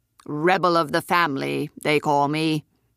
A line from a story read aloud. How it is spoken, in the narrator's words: he said in his growly voice